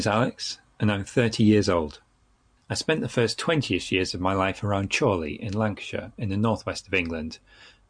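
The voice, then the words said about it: Generic northern English accent, slight southern influence. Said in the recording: “I still have what I would describe as a generic northern accent, albeit with some southern influence. Most notably I would say "bath" and "grass" in the northern style, with a flat "a"”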